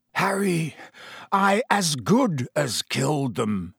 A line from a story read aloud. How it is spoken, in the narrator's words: he croaked